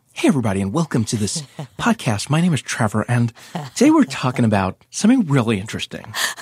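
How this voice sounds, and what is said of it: Exaggerated podcast host voice. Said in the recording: “This is my podcast voice... I think you're nailing it... My dream has always been to have the podcast voice.”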